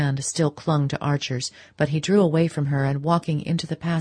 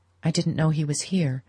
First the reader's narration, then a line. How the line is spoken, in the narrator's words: Madame Olenska murmured